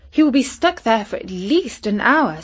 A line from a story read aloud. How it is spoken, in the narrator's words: said cheerfully